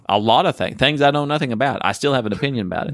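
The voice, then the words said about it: Southern American accent. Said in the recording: “The Southern thing comes across.”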